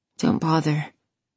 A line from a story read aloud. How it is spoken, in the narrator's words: she rasped